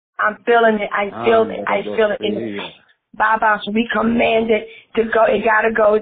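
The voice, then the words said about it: Hoarse voice. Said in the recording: “my voice is getting hoarse.”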